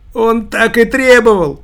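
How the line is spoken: Shout. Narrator (Russian): тоже закричал Костырьков

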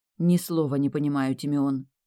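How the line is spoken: Grumbled. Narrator (Russian): Буркнула я

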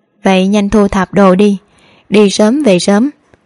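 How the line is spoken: Smiling. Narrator (Vietnamese): trên mặt lại mỉm cười với Hạ Lan Vi, nói

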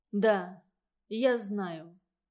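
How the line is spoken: Dejected voice. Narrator (Russian): сказал он упавшим голосом

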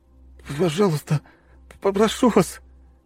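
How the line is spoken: Sobbing. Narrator (Russian): Парень всхлипнул

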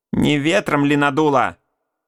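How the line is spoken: Mother cutting in sharply. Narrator (Russian): резко оборвала матушка

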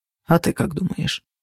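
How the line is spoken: Muttering. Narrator (Russian): пробормотал он

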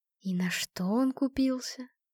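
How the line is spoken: Sigh. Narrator (Russian): вздохнула Светка

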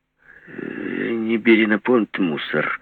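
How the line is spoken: Uncertain. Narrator (Russian): неуверенно сказала Маня

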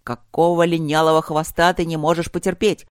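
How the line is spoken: Growl. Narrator (Russian): зарычал он

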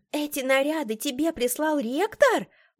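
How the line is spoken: Surprised exclamation. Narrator (Russian): Удивленно воскликнула

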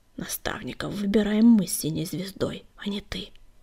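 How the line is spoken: Hissing to himself. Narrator (Russian): прошипел он про себя

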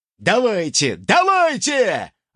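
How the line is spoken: Eager shout. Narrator (Russian): азартно выкрикнул ультиматор

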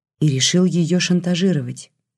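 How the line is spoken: Sad sigh. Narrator (Russian): грустно вздохнула Лиля

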